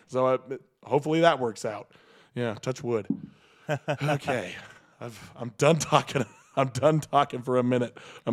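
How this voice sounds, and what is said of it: Voice giving out, strained. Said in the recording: “I'm losing my voice.”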